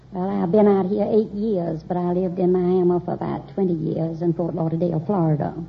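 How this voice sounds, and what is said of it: Southern US accent. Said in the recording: “I suspected you were south of the Mason-Dixon line. ... People in Long Beach don't have that kind of an accent.”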